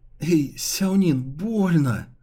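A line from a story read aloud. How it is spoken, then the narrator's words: Whiny complaining voice. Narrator (Russian): жалобно заныл Ли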